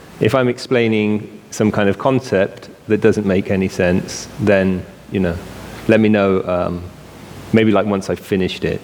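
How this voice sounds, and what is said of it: British accent. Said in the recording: “you can already tell I have a British accent”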